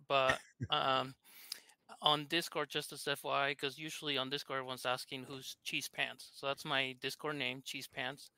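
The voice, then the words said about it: Thick Argentine accent. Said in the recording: “So I'm from Argentina, hence my thick accent”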